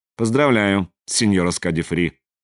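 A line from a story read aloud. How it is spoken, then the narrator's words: Dry, curt, director. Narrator (Russian): сухо промолвил директор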